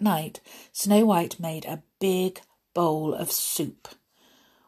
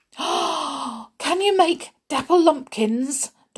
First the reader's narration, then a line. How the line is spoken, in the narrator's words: Doc spluttered excitedly